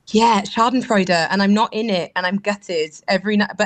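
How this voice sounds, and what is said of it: Welsh accent. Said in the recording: “I just adore the Welsh accent.”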